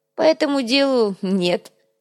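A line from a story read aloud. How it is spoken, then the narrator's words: Snort. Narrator (Russian): хмыкнул Урбек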